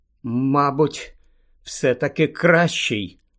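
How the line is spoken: Trembling voice. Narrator (Ukrainian): тремтячим голосом відповів Гаррі

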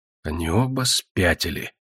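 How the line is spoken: Swan muttering. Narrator (Russian): пробормотал лебедь

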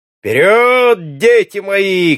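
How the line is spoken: Shout over laughter. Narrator (Russian): крикнул Эльвард после нового взрыва хохота

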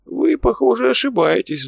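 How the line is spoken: Old man's sigh. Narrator (Russian): вздохнул старичок

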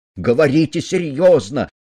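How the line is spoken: Shout. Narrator (Russian): крикнул Цандер

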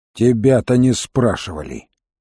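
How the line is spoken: Grumbling. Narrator (Russian): проворчал Крут

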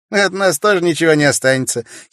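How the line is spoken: Giggling. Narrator (Russian): хихикнул Кеша

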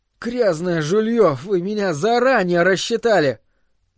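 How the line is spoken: Strained, forced words. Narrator (Russian): я выдавил из себя

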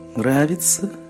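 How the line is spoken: Whisper. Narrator (Russian): прошептал сборщик налогов

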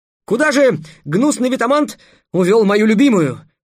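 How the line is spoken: Exclamation. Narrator (Russian): воскликнул Трикс

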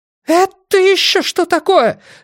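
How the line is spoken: Woman screaming. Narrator (Russian): завопила женщина

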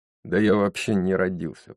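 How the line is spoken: Grumbled. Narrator (Russian): проворчал Джейсон

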